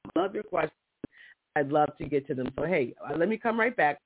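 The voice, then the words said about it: Slightly raspy voice. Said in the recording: “I feel a little raspy.”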